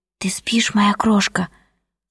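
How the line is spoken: Quiet tender question. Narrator (Russian): тихо спросил он

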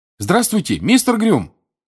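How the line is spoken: Shouting. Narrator (Russian): крикнул Гарри

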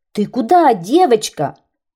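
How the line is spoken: Policeman shouting. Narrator (Russian): закричал милиционер

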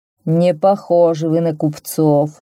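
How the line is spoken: Displeased grumble. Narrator (Russian): проворчал он недовольно

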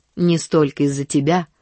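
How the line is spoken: Mocking. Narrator (Russian): насмешливо сказала Нэнси

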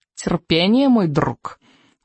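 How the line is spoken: Menacing purr. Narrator (Russian): угрожающе промурлыкал крючкозуб

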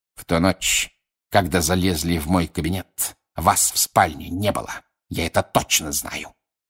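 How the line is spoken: Hiss. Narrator (Russian): прошипел Снег

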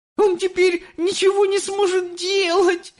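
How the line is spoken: Sobbing. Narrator (Russian): рыдала миссис Телек

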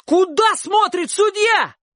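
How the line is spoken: Offended full-throated shout. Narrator (Russian): Обида его была столь велика, что он на мгновение задохнулся, выплюнул свисток и закричал во все горло

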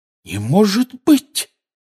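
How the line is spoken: Exclamation. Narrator (Russian): воскликнула Гермиона

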